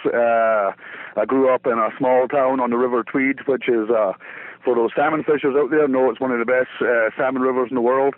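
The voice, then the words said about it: Scottish Borders accent. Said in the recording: “what kind of accent is that you have? ... It's a Scottish accent from the Scottish borders”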